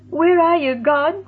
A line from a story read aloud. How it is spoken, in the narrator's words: Roxy's mind shrieked as she sank into the lake